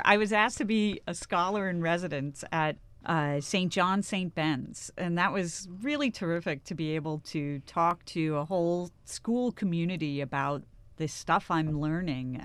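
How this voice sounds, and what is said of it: Upper Midwest accent. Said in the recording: “I would guess you would be from the upper Midwest if I just heard you on the radio ... I could see you on the show Fargo or the movie ... I must have slipped into the accent.”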